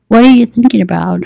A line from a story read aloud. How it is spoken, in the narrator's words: he asked, his tone teasing and his British accent very noticeable